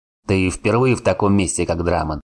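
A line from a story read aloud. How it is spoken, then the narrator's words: Smirking grunt. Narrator (Russian): хмыкнул Варн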